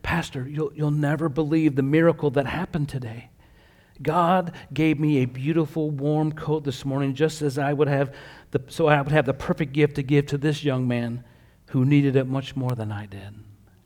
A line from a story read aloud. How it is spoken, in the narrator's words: Arthur whispered